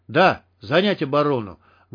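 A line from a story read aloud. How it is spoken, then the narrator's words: Barked reply. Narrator (Russian): гаркнул в ответ Штык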